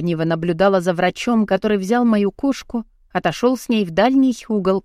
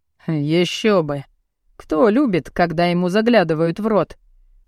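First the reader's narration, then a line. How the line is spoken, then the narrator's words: Man's smirking snort. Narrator (Russian): хмыкнул мужчина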